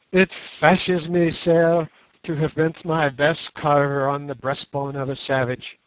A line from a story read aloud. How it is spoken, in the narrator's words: and he laughed hysterically